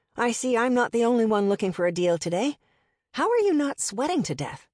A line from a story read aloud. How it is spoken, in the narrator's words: I said happily